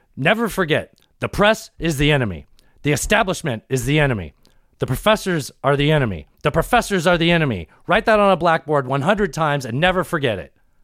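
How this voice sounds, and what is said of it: Richard Nixon impression. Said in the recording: “you to do an impression. ... It wasn't a good impression of Richard Milhouse Nixon. ... It was pretty good. I bought it.”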